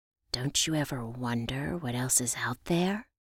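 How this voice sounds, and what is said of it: Spooky voice. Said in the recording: “I replied in a spooky voice.”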